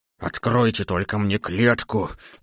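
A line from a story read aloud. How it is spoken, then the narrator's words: Lion's roar. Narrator (Russian): взрычал лев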